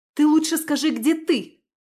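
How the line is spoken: Nearly shouting. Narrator (Russian): чуть не закричала я

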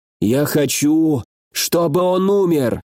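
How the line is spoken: Strained, furious. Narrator (Russian): через силу выдавил из себя Хонгуи, сгорая от ярости

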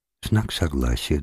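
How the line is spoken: Quiet. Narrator (Russian): договорила она тихо

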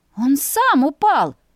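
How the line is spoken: Exclamation. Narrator (Russian): воскликнула я

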